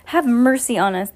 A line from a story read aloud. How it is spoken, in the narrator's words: cried another child